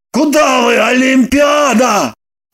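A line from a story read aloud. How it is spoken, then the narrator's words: Bewildered shout. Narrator (Russian): Растерянно закричал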